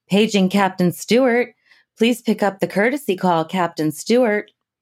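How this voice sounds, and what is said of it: Airport announcer voice. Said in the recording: “that's my airport announcer voice.”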